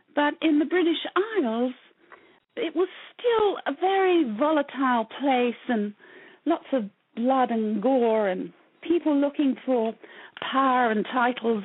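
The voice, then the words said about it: British accent. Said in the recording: “you're British, correct? I can tell from the accent.”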